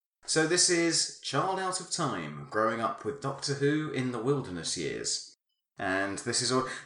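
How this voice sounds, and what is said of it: Formal newsreader-style delivery. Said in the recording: “put on my newsreading voice”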